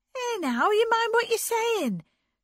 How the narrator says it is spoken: cried Anne

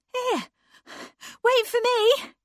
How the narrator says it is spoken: cried Anne, coming tumbling after

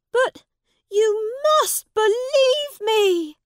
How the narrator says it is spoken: cried the prince

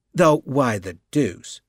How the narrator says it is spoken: Betton continued in the same steady tone

